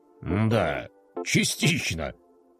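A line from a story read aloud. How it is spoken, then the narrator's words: Snort. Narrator (Russian): хмыкнул генерал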